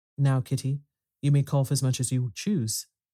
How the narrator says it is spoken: said Mr

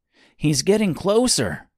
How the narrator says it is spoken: exclaimed Mister

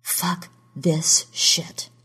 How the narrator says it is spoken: Lauren breathed

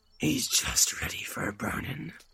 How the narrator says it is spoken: said the man in black, with a growl of triumph

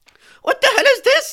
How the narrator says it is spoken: I shrieked

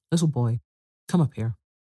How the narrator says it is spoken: said sternly

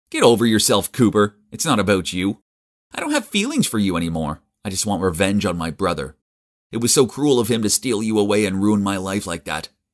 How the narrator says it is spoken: Elliot just laughed and said

